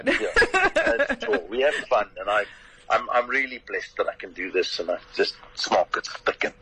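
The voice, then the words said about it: Distinctive own regional accent. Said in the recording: “you've just got the way to say it as an accent. I can't do the accent. ... the accent, I'm afraid, is all yours.”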